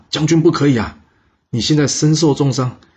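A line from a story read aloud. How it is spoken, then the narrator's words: Surprised shout. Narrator (Chinese): 这底下的士兵一听到魏抽的吩咐，惊讶地叫道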